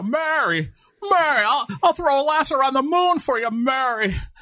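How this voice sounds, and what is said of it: Jimmy Stewart impression. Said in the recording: “I was just moving on to Jimmy Stewart because I know you are waiting to do your impression”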